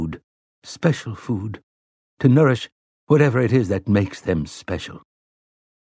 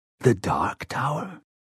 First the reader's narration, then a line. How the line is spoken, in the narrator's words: He whispered the words